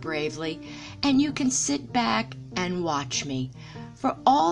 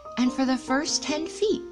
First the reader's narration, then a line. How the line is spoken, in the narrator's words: Tigger said happily to himself